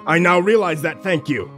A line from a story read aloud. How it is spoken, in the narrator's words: wheezed out